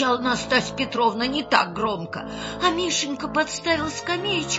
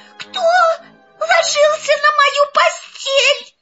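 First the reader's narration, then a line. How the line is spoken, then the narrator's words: Terrified shrill squeal. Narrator (Russian): завизжал так, как будто его режут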